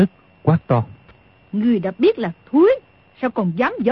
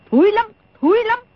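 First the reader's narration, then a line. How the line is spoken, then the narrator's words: Angry interruption. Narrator (Vietnamese): Đồng Mổ tức giận ngắt lời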